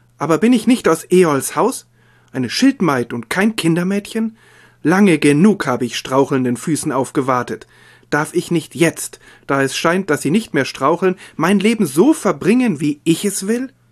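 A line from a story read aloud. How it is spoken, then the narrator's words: Calling out. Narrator (German): rief sie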